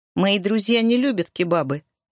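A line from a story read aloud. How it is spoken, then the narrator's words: Grumbling. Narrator (Russian): проворчал Брайан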